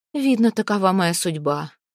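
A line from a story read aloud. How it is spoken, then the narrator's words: Sad. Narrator (Russian): грустно сказала Снефрид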